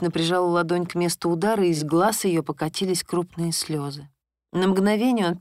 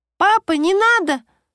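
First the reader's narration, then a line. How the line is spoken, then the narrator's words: Ringing girl's exclamation. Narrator (Russian): звонко воскликнула девочка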